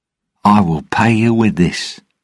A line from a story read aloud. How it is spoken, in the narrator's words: Jack said brightly